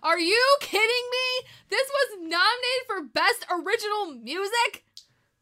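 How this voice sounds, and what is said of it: Loud angry yelling. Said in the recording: “Do you see how much I'm yelling? The sound wave is very angry. Like the sound of my voice.”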